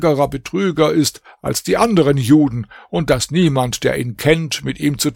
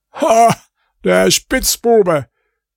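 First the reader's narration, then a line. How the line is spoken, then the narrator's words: Goldsmith calling out. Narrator (German): rief der Goldschmied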